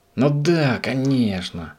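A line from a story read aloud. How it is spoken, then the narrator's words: Exclaiming. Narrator (Russian): воскликнул Субастик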